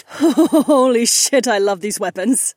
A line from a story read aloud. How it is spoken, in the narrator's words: Kat chuckled with a lopsided grin